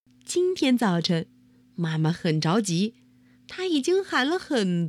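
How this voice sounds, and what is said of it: Usual voice. Nothing is said of it.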